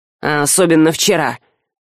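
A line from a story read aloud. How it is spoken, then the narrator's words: Gloomy agreement. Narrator (Russian): мрачно поддакнул Альк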